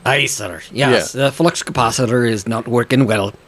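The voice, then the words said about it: Bad Scottish accent impression of Scotty. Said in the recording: “that was a horrible accent ... Scotty, you know, doing a Scottish accent ... Dreadful.”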